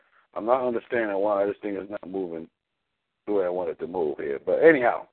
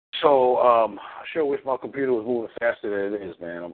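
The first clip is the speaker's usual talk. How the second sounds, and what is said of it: Mildly sarcastic complaining tone. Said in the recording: “I'm being sarcastic, but only a little bit.”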